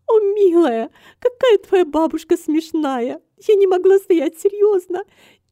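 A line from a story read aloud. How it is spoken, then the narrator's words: Amused laughter. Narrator (Russian): И Ада рассмеялась, считая все это очень смешным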